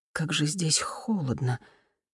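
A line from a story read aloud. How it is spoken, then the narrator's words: Forceful exhale. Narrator (Russian): Лидия с силой выдохнула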